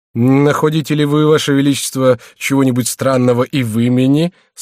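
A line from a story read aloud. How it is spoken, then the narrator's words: Laughing. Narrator (Russian): сказал герцог, смеясь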